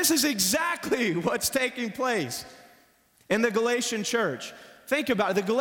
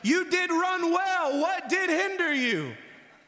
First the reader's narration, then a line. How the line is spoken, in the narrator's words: the Apostle Paul yelling at the Galatians